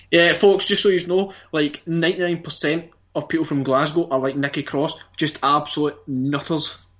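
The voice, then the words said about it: West of Scotland accent. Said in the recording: “as you can hear at the moment, that's how most of the central west of Scotland folk speak ... The way Noam Dar comes across on Twitter is the way we speak.”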